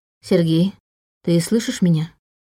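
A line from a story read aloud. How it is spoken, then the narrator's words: Forced calm question. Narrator (Russian): спросила Саша, стараясь говорить спокойно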